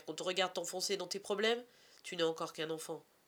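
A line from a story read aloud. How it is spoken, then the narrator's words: Father exclaiming. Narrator (French): s'exclame son père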